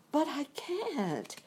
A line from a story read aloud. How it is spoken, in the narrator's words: exclaimed Dorothy, greatly surprised